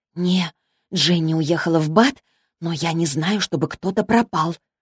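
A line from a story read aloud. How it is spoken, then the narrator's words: Whisper. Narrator (Russian): прошептала Молли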